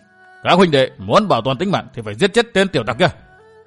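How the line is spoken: Shout through gritted teeth. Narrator (Vietnamese): Nghiến răng ken két, Thạch Tiến Nhân quát

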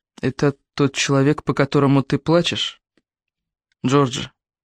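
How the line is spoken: Quiet question. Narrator (Russian): Тихо спросил Томас

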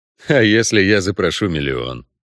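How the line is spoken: Snorted. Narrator (Russian): хмыкнул Геральт

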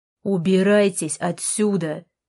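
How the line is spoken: Barked. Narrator (Russian): рявкнул он снова

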